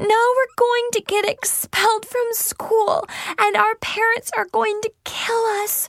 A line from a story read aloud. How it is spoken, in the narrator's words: she shrieked hysterically